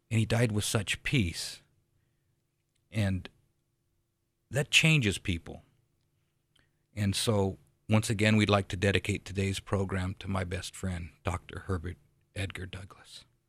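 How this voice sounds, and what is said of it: Choked-up, emotional voice. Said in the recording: “a little choked up”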